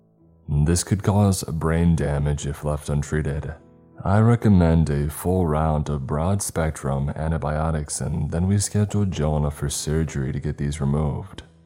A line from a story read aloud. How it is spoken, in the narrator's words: the doctor said